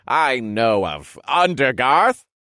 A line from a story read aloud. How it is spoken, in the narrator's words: He answered with a small chuckle